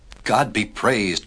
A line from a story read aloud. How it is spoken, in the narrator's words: cried Noah